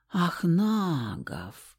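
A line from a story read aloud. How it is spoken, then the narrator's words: Drawn-out thoughtful girl. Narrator (Russian): глубокомысленно протянула Стаська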